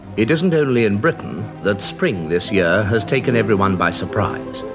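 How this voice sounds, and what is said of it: Old-fashioned heightened British RP accent. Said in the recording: “the old school heightened RP accent. Check out this old fashioned British accent”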